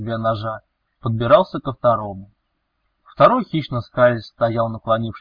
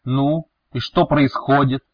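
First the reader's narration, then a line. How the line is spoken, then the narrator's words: Barked. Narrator (Russian): рявкнул Велес в лицо Лома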